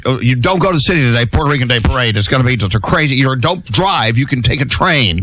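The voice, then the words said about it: Put-on Long Island accent. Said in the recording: “that accent is wild. That's Sally from like Long Island or something.”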